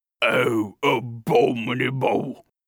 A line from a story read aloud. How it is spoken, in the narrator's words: growled His Royal Highness